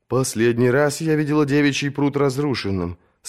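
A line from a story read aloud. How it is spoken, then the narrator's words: Plain. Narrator (Russian): сказала она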